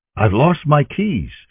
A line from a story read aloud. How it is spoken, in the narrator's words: answered the man